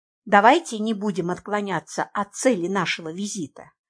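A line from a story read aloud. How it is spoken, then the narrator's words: Quiet. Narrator (Russian): негромко сказала я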